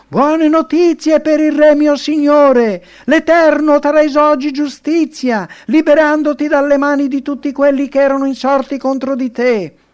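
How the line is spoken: Shouting. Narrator (Italian): Il secondo messaggero arrivò gridando

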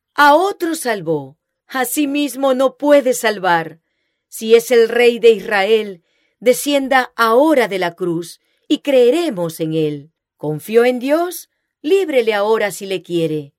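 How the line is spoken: Frenzied mocking exclamation. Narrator (Spanish): Llenos de horror, con arrebato satánico, exclamaron

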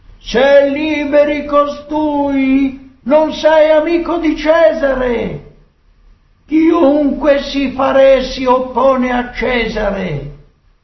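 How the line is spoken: Crowd shouting. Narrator (Italian): i giudei gridavano

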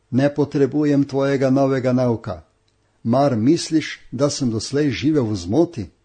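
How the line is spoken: Shouting. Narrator (Slovenian): Kalvin je zavpil

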